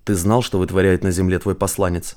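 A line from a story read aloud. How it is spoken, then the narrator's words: Demanding tone. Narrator (Russian): требовательным тоном произнес Василий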